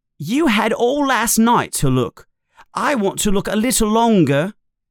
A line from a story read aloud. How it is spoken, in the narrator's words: Ron says, a little angrily